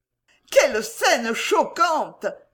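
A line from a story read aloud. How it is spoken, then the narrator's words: Aunt's exclamation. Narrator (French): s'écria la tante demoiselle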